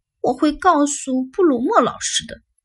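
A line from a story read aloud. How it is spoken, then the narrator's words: Muttering. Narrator (Chinese): 嘟囔着说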